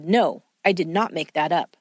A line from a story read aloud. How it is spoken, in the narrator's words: firmly said